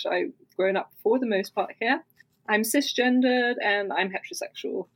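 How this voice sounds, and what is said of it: British-sounding accent. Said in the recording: “I sound very British.”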